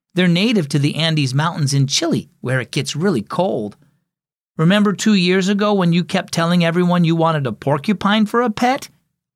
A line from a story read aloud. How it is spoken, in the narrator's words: Ella could not contain her giggles